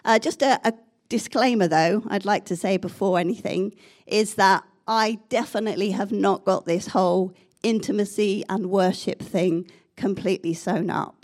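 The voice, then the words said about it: Croaky voice. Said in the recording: “excuse my voice. I've had a cold. It's very croaky.”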